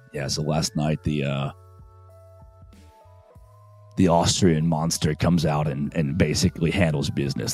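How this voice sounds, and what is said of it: Voice gone bad. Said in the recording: “my voice went bad. Maybe I slept with my mouth open.”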